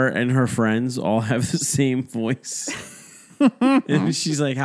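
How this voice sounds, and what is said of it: Usual voice. Nothing is said of it.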